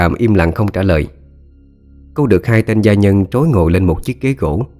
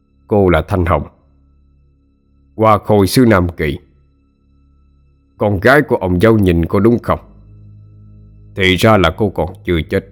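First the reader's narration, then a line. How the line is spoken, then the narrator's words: Stern question. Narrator (Vietnamese): Ông hội đồng vẻ mặt nghiêm nghị, hỏi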